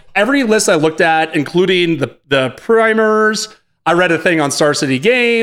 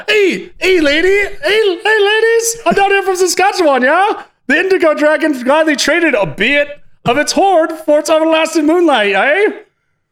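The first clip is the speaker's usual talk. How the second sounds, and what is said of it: High-pitched put-on Canadian accent. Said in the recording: “high voice Jack Canadian ... it's way higher than that.”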